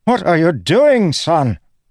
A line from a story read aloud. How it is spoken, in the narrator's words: Roshon sputtered, his nose bleeding